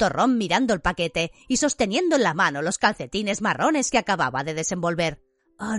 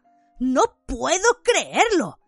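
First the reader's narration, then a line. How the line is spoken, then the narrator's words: Voice breaking with emotion. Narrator (Spanish): dijo con la voz quebrada por la emoción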